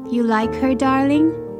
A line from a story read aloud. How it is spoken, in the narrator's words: Jim asked